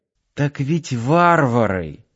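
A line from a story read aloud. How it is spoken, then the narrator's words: Quiet reminder. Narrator (Russian): тихо напомнила любимому Надя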